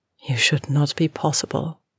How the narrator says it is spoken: she said softly

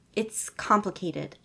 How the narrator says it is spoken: he sighed, uncaring of how dramatic that sound came out

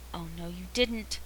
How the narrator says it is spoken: says Jim under his breath

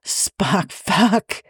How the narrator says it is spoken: he says, with a hint of laughter

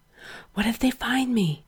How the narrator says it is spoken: Gerard gasped against Frank's mouth

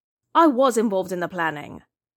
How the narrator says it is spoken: Hikaru said irritably

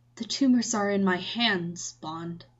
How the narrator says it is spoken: he said, so quietly that Bond only caught half of the sentence

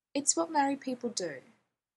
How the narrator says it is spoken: she answers calmly

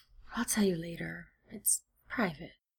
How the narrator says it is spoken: gives a deep, beleaguered sigh and says

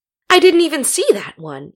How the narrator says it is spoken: exclaimed, in mock horror

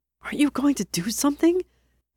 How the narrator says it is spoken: Peter hissed

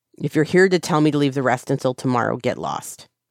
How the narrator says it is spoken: Zheng Cheng snaps

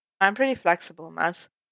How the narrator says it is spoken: Clint said, his tone easy and relaxed

